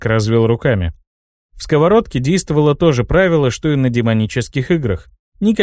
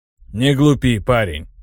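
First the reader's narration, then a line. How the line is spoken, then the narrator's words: Snorted. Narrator (Russian): хмыкнул Хайро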